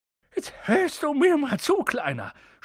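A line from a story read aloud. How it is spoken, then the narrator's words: Snapped gruffly. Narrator (German): schnauzte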